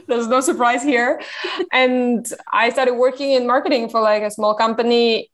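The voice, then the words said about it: French accent in English. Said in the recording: “I'm French, as you can probably tell. ... wondering where the accent's from”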